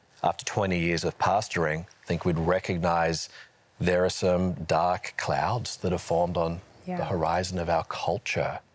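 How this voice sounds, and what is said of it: Australian accent. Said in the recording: “So you're hearing the Aussie accent.”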